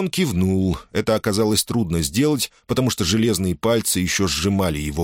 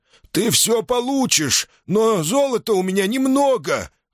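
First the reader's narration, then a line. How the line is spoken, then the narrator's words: Desperate hoarse wheeze. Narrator (Russian): в отчаянии прохрипел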